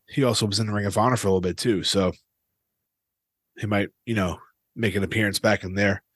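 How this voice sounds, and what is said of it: Worn-out, exhausted-sounding voice. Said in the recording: “my voice sounds like this ... It sounds like I'm dying, but I'm not. Just shot.”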